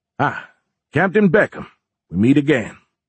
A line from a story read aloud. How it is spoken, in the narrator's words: the man said in a southern drawl